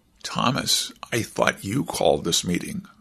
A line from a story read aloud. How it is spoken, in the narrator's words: Hershey whispered